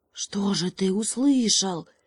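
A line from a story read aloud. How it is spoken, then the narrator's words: Whispered question, hare. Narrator (Russian): так же шепотом спросил заяц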